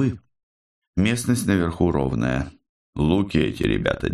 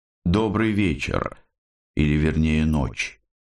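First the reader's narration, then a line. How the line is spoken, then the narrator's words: Calm. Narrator (Russian): спокойно произнес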